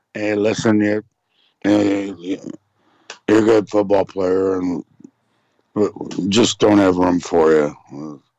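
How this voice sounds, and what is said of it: Poor impression of Bill Belichick. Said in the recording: “That's a bad impression, I know, but I'm sure Belichick has it down to a T.”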